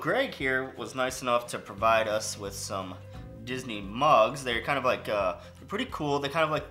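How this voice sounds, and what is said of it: Usual voice. Nothing is said of it.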